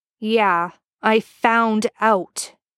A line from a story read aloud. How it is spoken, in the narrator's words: Ben growls, hurt